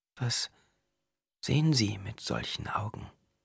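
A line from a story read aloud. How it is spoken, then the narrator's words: Asked softly. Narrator (German): fragte sie leise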